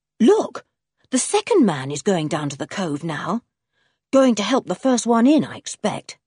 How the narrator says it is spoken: said Julian

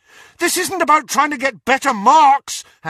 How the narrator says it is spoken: Harry shouted at her

